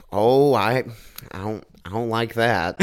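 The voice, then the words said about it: Impression of a friend's voice. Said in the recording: “your Tristan impression”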